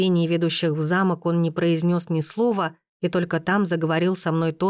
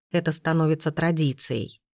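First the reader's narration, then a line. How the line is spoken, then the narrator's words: Muttering. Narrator (Russian): пробормотав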